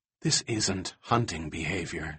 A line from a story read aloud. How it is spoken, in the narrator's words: she whispered